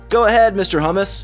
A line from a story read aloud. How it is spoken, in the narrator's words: Froggy shouted